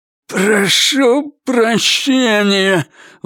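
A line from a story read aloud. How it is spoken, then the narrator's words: Forced, hateful. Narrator (Russian): выдавил он с ненавистью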